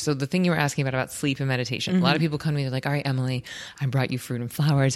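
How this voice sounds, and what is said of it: Soft soothing ASMR-like voice. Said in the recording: “You do have an ASMR voice.”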